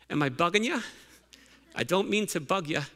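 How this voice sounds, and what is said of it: Put-on Irish accent. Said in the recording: “I try to say it in my best Irish accent.”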